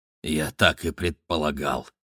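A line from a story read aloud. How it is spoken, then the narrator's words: Scientist's mutter. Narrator (Russian): пробормотал ученый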